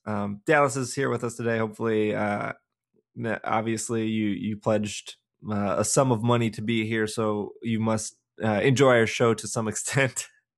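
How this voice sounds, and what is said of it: Scratchy voice. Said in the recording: “my voice is very scratchy today ... I apologize if my voice is scratchy in advance”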